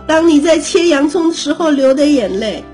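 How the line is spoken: Mother calling from kitchen. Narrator (Chinese): 妈妈从厨房里喊了一声说

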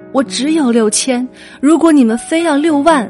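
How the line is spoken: Sobbing desperate scream. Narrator (Chinese): 失声痛哭，只能拼尽所有力气对电话那端的恶人嘶喊

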